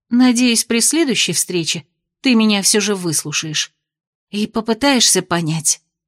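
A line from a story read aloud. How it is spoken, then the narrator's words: Whisper. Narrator (Russian): прошептала она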